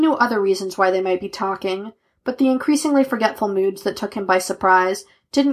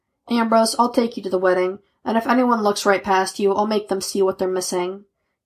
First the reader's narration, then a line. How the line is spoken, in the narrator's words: Kane offered evenly